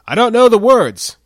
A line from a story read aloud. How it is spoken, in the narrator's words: shouts